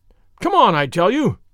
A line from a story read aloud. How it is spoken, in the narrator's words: thundered Muscari from above